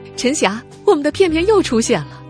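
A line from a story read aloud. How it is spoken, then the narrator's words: Frantic shout. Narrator (Chinese): 何梦发了疯似的到 QQ 群里喊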